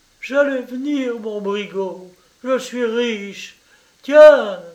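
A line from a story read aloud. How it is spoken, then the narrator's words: Calling out. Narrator (French): s'écria-t-elle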